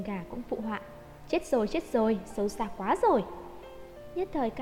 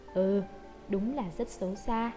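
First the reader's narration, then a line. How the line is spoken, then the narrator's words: Mumbling. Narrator (Vietnamese): miệng lầm bầm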